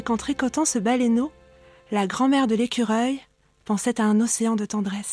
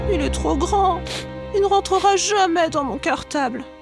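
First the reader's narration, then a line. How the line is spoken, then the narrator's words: Whimpering. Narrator (French): pleurniche-t-il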